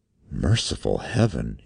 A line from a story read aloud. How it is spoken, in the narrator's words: he whispered